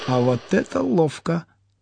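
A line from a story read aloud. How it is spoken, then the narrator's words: Excited whisper. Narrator (Russian): азартно прошептал сосед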